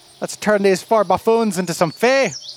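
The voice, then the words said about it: Bad fake Irish accent. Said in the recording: “God, I have a horrible accent... If you're from Ireland... how bad my fake accent is”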